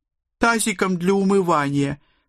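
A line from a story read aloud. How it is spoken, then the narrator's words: Sobbing girl. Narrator (Russian): всхлипнула моя дочь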